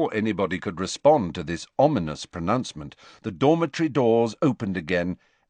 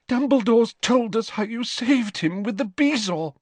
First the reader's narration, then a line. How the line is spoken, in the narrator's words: she sobbed